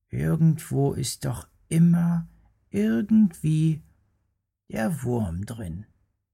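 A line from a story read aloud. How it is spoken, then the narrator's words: Resigned murmur. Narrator (German): weil ihm keine bessere Antwort einfiel, murmelte er nur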